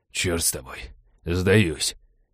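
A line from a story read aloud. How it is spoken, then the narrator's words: Exhausted wheeze. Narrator (Russian): обессиленно прохрипел череп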